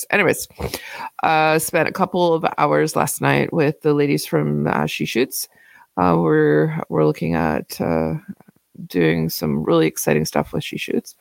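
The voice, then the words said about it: Voice sounds ill. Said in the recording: “I'm still ill. You can probably tell by my voice.”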